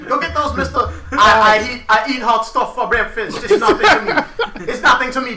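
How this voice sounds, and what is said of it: Fake Caribbean accent. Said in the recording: “Your fake accent is offending you, sir. ... My fake accent realer than your real accent.”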